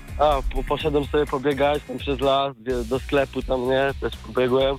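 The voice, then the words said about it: Hoarse, sick-sounding voice. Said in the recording (Polish): “Słyszę, że choroba rozkłada... troszkę chrypa jest.”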